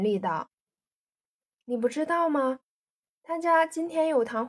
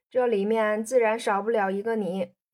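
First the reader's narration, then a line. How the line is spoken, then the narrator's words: Laughing. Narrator (Chinese): 燕西笑道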